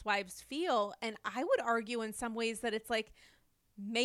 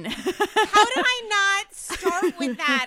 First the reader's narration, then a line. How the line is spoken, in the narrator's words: I screamed